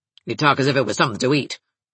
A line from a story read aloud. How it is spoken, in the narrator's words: grunted Mrs